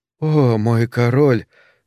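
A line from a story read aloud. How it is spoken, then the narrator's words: Sighing. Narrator (Russian): вздохнула Гудрун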